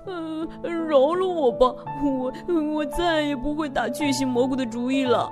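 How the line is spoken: Crying. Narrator (Chinese): 笨笨熊哭着说

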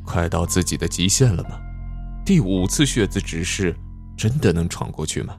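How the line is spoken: Sighing, lamenting. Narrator (Chinese): 李隐不禁感叹起来

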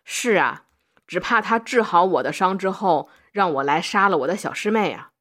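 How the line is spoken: Faint smile. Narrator (Chinese): 他……淡淡一笑，说道

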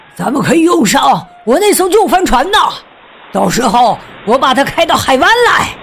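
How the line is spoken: Loud shouting. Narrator (Chinese): 船长比克斯大声嚷嚷说

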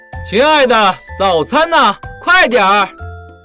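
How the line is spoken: Loud call. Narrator (Chinese): 朱先生 总是大声地喊

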